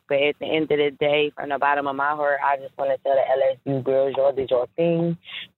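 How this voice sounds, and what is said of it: Philadelphia accent. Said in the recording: “I love a Philly accent.”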